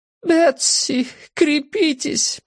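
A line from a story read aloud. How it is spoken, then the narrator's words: Moaning. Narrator (Russian): простонала она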